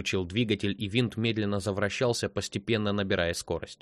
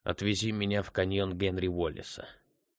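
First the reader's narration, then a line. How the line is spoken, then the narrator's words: Mutter. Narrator (Russian): пробормотал Арни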